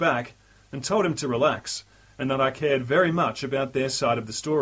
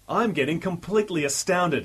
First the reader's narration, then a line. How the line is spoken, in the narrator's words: he exclaimed